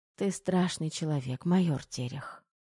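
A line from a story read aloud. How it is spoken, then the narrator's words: Sighing mutter. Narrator (Russian): пробормотала Тома с легким вздохом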